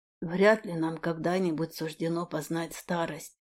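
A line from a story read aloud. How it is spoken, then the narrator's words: Quiet speech. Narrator (Russian): произнес тихо Скайвинд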